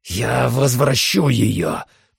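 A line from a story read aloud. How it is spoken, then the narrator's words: Hissing. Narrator (Russian): прошипел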